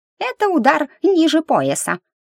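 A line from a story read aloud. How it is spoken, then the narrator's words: Indignant snort, brother. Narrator (Russian): возмущенно фыркнул братец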